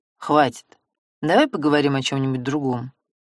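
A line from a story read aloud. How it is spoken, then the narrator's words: Grumbling. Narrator (Russian): пробурчал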